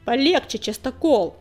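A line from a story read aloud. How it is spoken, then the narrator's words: Bark. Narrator (Russian): рявкнул Коготь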